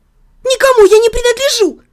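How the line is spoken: Snapping retort. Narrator (Russian): огрызнулась я

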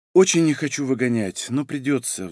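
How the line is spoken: Sigh. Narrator (Russian): вздохнула она

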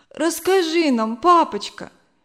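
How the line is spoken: Tearful sobbing plea. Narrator (Russian): попросила Зина, все еще всхлипывая

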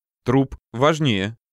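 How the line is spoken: Snorting, wry. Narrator (Russian): хмыкнул я

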